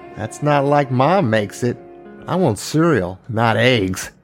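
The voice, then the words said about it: Pissy, whiny child's voice. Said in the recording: “in his pissy little whiny voice.”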